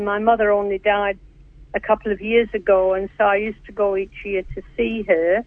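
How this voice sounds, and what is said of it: Older Northern English accent. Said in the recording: “you do talk funny ... you've got that accent ... Your accent sounds like very Call the Midwife or something like that”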